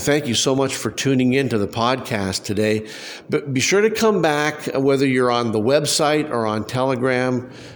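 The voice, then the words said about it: Congested, fading voice. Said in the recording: “my voice is starting to fade fast ... a particularly nasty head cold ... I still have a little bit of congestion ... my voice is still wanting to cut out on me”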